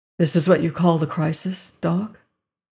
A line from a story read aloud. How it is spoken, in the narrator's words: he asked gently